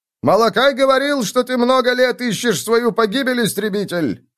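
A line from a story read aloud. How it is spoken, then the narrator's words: Shouted. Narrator (Russian): крикнул Лихтман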